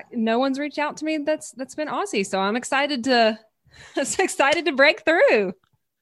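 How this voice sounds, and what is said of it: Southern US accent. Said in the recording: “my accent ... I'm from Louisiana in the States. I'm from the southern part of the States”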